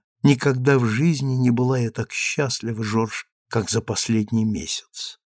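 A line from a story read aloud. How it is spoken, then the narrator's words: Whisper. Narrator (Russian): Она шепнула ему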